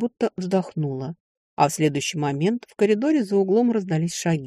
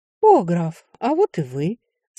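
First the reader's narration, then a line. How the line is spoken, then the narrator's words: Sweet drawling voice. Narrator (Russian): сладким голоском протянула Ливия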